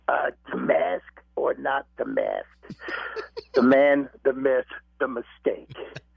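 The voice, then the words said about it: Imitates another person's voice, New York. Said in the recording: “my best Fauci impersonation, like being originally from New York”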